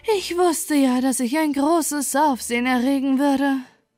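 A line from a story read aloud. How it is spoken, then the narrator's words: Panting rocket. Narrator (German): keuchte die Rakete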